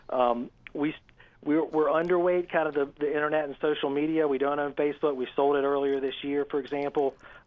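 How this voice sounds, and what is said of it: Southern US accent. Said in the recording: “Always good to hear your Southern accent”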